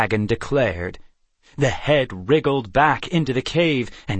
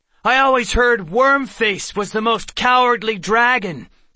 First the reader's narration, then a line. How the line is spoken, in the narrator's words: Seth yelled